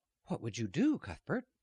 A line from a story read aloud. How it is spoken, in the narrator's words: his mother asked anxiously